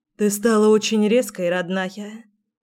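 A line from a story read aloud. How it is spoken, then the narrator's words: Sighing. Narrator (Russian): вздохнула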